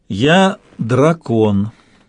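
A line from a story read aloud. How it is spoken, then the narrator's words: Slow, weighty voice. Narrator (Russian): медленно и весомо уронил голос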